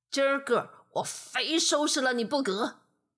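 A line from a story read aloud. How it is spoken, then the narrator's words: Angry bear. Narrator (Chinese): 熊发怒了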